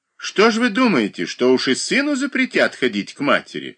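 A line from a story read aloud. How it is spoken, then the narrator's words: Exclaimed. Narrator (Russian): воскликнула Анна Васильевна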